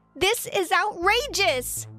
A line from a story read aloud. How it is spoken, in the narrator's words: I yelled out